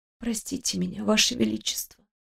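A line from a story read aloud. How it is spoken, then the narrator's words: Whisper. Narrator (Russian): сказала я шепотом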